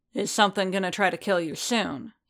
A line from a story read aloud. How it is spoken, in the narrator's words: he asked sharply